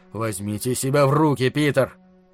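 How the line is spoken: Growling. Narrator (Russian): Харрисон прорычал

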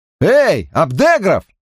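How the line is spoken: Yelling. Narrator (Russian): вопил Гарри

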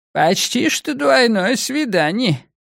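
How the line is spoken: Squeaky, near-hysterical, giggling. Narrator (Russian): писклявым голосом, намекающим на истерику, сказал Ранд и хихикнул

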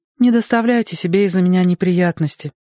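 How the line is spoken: Sad. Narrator (Russian): грустно сказала она

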